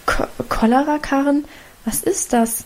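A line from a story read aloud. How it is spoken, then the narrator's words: Stammering mother. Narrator (German): stammelte Mutter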